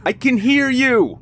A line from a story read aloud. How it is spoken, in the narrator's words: yelled into the woods